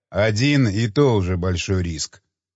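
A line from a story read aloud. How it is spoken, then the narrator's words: Quiet even voice. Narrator (Russian): произнес адмирал тихим ровным голосом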